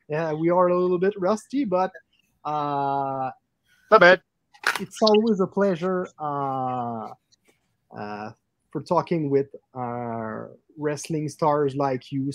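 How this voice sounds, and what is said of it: Strong Quebec French accent. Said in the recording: “located in Quebec City, Canada ... that's why we have a big accent.”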